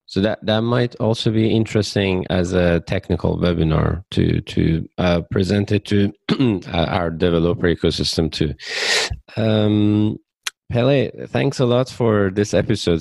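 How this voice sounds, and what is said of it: Hoarse, fading voice. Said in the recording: “Seems like I'm losing my voice.”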